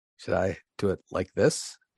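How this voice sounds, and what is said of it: Soft, hushed radio-host voice. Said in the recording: “NPR voice ... just dial it back a little bit ... Pretend like you're whispering.”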